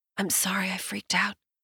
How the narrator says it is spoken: she murmurs

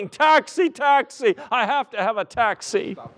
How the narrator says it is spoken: a madman out in the middle of the street shouting

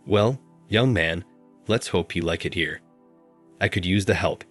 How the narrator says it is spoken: he said

